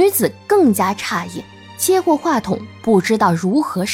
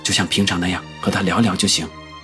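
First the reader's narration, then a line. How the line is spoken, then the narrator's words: Happy, hushed voice. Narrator (Chinese): 叶问开心的压低了声音说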